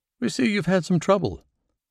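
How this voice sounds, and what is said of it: Clipped British accent. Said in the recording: “a clipped British accent”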